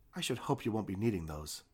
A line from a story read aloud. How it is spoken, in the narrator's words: said Althea